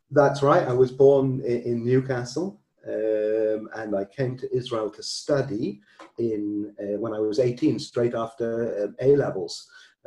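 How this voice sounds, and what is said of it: British accent. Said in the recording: “people may pick or detect your accent. You were born in the UK”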